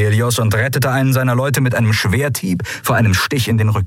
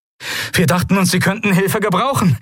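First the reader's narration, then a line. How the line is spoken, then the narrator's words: Breathless shout. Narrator (German): rief Novus atemlos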